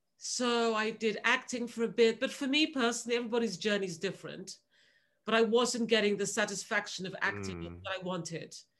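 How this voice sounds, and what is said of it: Proper British boarding school accent. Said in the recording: “this British accent, especially a proper British accent. I mean, I have a boarding school accent. It's definitely relaxed a lot now”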